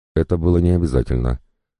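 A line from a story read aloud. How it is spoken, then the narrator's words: Flat, even voice. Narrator (Russian): констатировал все тем же ровным голосом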